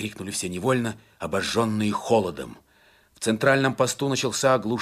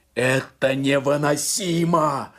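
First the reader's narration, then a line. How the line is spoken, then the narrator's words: Yelled. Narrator (Russian): заорал штурман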